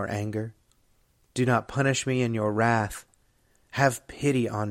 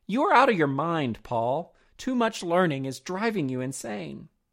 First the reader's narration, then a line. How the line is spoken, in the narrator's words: Festus exclaimed